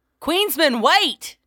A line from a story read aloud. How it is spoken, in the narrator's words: rough accent of a young female, barely audible over the howling chaos